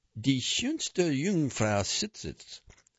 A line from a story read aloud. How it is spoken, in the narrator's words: I said aloud in an atrocious accent, my voice trembling